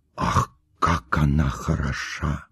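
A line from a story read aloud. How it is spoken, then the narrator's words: Whispering. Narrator (Russian): говорили шепотом кавалер кавалеру и дама даме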